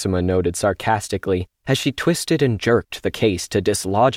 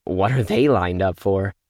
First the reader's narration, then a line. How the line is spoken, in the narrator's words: Maxima asked